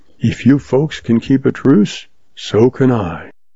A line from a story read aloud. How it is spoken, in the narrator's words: he breathed